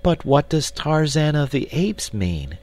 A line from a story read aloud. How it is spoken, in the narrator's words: cried the girl